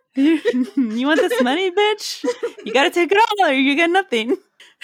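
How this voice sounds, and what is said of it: Gangster-like threatening voice. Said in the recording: “I don't know how to sound terrifying and say that. So it sounded like a gangster threat when it came from me.”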